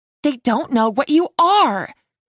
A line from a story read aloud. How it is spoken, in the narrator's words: Sophia said angrily